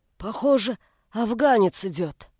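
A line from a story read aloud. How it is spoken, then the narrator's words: Hoarse worker's voice. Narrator (Russian): один из слесарей ... сипло произнес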